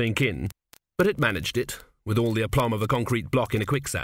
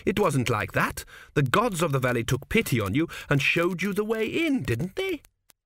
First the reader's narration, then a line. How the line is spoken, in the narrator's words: surprised at the tones of pleading in his own voice